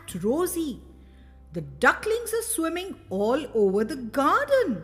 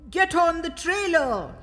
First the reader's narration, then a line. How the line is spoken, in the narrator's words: he shouted to the children